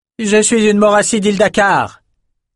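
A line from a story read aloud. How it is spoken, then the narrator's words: Shouted. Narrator (French): cria Adessa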